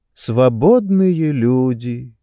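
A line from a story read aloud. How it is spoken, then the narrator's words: Drawl hiding disappointment. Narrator (Russian): протянула Сестеро, скрывая свое разочарование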